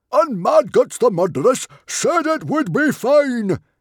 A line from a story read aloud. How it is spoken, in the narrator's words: yelled Stoic